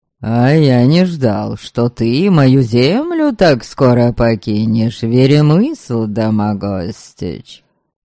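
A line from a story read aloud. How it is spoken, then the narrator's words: Mocking, superior, outwardly polite. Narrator (Russian): Насмешливо и с явным чувством превосходства отозвался Станила, сохраняя, однако, внешнюю вежливость и даже приветливость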